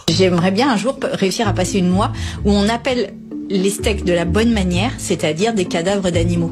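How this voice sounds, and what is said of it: French (France) accent. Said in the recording (French): “Elle a l'accent français.”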